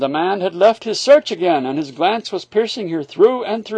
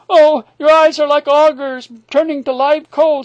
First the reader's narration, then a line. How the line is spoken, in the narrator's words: she cried